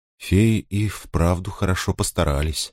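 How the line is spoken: Quiet. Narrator (Russian): сказала она тихо

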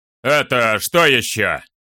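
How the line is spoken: Sudden low stern booming voice. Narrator (Russian): Вдруг прогремел чей-то низкий и суровый голос

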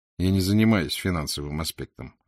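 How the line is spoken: Dry, curt. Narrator (Russian): ответил я сухо

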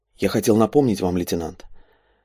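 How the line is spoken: Quiet. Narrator (Russian): все так же тихо произнес Андрей

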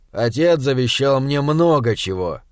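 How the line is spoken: Gloomy. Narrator (Russian): мрачно ответил Уортроп

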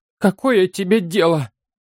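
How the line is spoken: Moaning. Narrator (Russian): простонала Эовин

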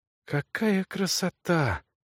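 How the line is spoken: Rapturous whisper. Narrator (Russian): восторженно прошептал он

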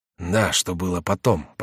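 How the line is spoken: Muttering. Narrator (Russian): пробормотал Реми

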